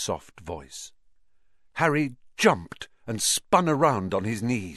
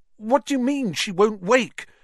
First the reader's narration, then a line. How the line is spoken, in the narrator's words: Harry said desperately